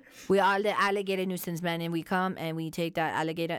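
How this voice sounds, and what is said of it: Put-on regional accent. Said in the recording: “That was actually a really good accent.”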